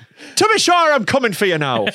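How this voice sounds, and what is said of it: Put-on Irish accent. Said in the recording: “the Irish remake... it's not a scary accent”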